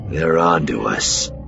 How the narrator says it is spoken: Cliff growled

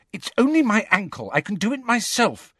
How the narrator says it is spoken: said Ginny impatiently

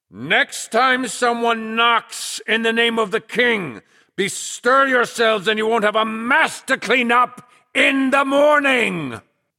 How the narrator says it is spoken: Flag bellowed

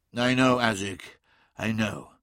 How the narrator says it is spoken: said Magnus wearily

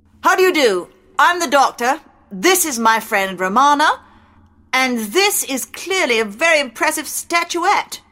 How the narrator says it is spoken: The man bellowed

